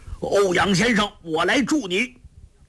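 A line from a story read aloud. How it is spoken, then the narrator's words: Impatient shout. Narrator (Chinese): 灵智上人……心中老大不耐……大叫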